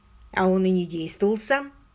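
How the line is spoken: Calm remark. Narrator (Russian): Заметил я спокойно

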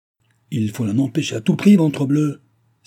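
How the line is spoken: Exclaimed, baron. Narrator (French): s'écria le baron

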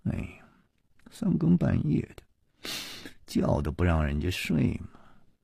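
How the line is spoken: Sleepy mumbling grumble. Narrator (Chinese): 夜里还喃喃地嘀咕着说

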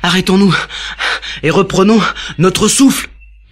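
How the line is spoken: Father panting. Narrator (French): haleta le papa de Léo

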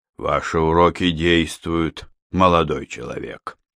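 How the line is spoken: Displeased. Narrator (Russian): сказал он Житкову с неудовольствием

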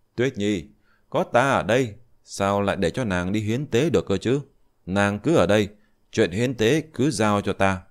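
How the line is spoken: Smiling. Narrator (Vietnamese): Diệp Chi Thu mỉm cười

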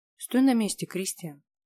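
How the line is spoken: Sharp command through clenched jaw. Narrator (Russian): резко приказал, до боли сжав челюсти

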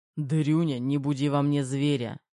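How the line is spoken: Barked. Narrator (Russian): рявкнул Терехов

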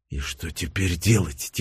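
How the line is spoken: Quiet, military general. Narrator (Russian): тихонько проговорил военный разведчик в звании генерала

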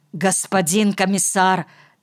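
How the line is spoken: Hurried. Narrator (Russian): торопливо начал Клуге

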